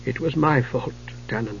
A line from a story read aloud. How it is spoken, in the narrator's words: he said softly through a voice husky with tears